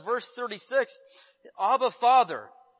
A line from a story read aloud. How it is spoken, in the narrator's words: he cried out